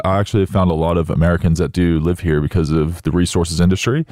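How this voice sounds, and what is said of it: American accent. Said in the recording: “Just to have the accent.”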